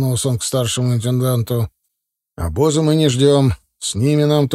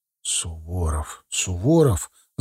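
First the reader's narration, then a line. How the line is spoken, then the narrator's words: Officers whispering. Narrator (Russian): зашептались офицеры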